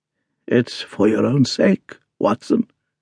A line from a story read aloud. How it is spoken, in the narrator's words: he croaked